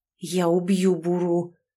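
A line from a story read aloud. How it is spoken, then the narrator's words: Through clenched teeth. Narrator (Russian): сквозь зубы процедил Глен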